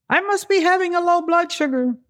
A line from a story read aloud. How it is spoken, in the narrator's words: screaming